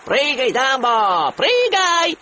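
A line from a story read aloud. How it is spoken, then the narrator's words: Clowns shouting. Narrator (Russian): кричали клоуны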